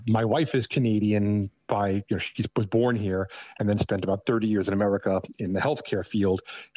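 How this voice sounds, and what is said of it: Thick New York accent. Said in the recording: “I still have a very thick New York accent”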